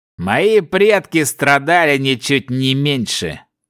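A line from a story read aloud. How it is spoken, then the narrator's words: Angry, through gritted teeth. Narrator (Russian): Злобно процедил помрачневший человек, вспомнив историю своей расы в этом мире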